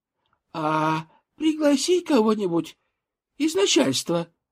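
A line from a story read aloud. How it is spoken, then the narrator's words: Squeaked. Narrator (Russian): пропищала Оленька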